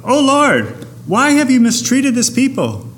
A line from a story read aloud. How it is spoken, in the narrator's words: Moses cried out